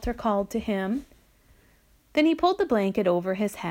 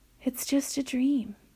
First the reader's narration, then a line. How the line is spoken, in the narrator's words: whispered